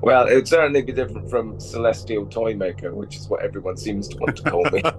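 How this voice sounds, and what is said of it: Gravelly voice from a cold. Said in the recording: “I'm suffering from a cold, so my voice sounds lovely and gravelly today”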